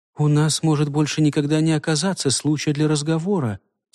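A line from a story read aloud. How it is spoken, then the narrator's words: Quiet. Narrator (Russian): тихо сказала она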